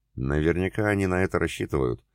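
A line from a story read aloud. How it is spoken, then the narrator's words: Calm. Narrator (Russian): спокойно сказал Айлат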